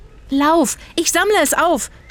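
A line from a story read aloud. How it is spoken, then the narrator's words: Shouting. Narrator (German): schrie Zora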